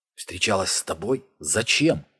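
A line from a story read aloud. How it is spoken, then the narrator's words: Forced out, strained. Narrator (Russian): выдавил Ник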